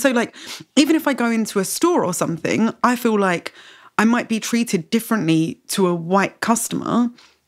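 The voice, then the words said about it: British accent. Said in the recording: “this kind of whiteness is conferred on me just by virtue of having a British accent ... because of the way that I speak”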